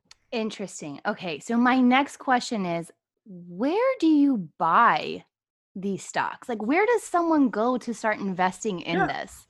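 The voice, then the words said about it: Smooth radio-style voice. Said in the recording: “you have a perfect radio voice.”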